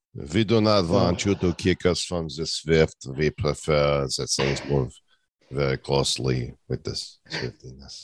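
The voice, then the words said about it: Put-on Russian accent. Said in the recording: “where is your Russian accent when you need it?”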